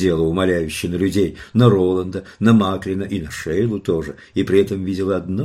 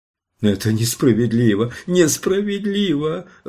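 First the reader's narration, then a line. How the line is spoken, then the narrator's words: Sobbing woman. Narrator (Russian): рыдала женщина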